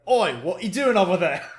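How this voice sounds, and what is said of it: Put-on Cockney accent. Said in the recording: “everybody has a Cockney accent”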